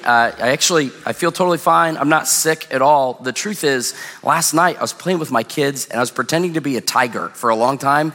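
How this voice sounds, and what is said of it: Hoarse, strained voice. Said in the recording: “I'm losing my voice today”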